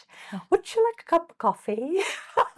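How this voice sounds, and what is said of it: Put-on British accent. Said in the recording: “she says as she sits with a Brit. ... Great accent.”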